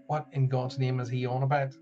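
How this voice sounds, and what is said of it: Northern Irish accent. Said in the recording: “kind of my Northern Ireland accent”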